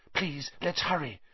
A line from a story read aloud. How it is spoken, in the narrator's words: Hermione whispered